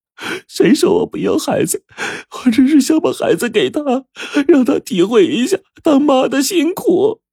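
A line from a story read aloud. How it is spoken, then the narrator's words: Mother crying. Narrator (Chinese): 彤彤的妈呀，哭着说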